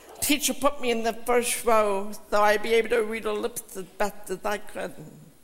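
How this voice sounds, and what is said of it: Slightly unusual accented speech. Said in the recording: “I know I still talk funny ... you really have an accent ... it's just a little bit different”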